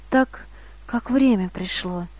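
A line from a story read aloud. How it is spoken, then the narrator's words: Whispered. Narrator (Russian): прошептал Давид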